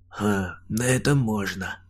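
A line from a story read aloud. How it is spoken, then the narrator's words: Giant's snort. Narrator (Russian): хмыкнул гигант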